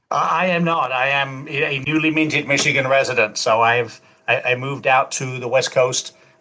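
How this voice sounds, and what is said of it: Mixed English accent, hard to place. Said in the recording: “you have sort of an accent that doesn't, you admitted, doesn't quite fit in anywhere anymore”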